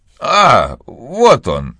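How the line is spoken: Excited. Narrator (Russian): взволнованно сказал мистер Талливер

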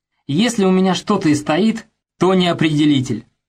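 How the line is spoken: Laughing. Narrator (Russian): рассмеялся Пафнутьев

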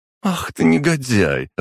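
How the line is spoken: Laughing young woman. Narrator (Russian): рассмеялась девушка

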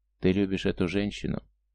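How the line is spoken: Gentle, affectionate. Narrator (Russian): Иль, ласково сказал

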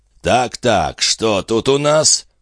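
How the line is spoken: Creaky voice in ear. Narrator (Russian): проскрипел чей-то голос Пину в самое ухо

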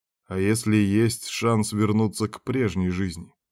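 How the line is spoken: Ingratiating question. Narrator (Russian): вкрадчиво спросил Берг

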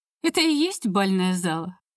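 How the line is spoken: Laughing. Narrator (Russian): рассмеялась

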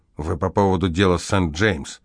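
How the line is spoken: Irritated question. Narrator (Russian): Шнайдер раздраженно спросил

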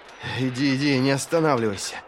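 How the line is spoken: Muffled, strained. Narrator (Russian): глухо через силу проговорил Вест

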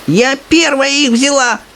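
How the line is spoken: Old woman shouting. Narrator (Russian): кричала бабушка Джорджина

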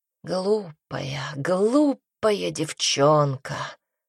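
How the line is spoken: Purring. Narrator (Russian): промурлыкал Пайер

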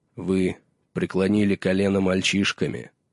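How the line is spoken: Solemn proclamation. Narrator (Russian): торжественно провозгласил Боуэн Марш

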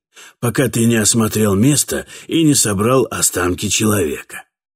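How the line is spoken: Sighing. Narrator (Russian): вздохнул Катфаэль

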